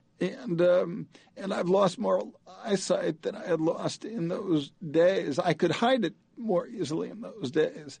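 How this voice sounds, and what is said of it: Badly affected, impaired voice. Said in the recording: “I'm very obviously affected by the MS. You can hear it in my voice. It's been hit badly.”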